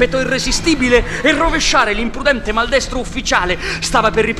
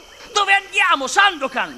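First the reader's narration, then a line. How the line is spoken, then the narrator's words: Shouted. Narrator (Italian): gridò Yanez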